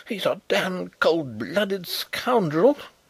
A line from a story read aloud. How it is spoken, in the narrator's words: exclaimed the young officer fiercely